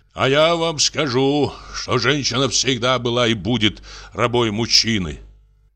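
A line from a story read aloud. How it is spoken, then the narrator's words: Deep bass voice. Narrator (Russian): заговорил он басом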